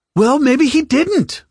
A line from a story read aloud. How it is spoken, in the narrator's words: Mattis shouted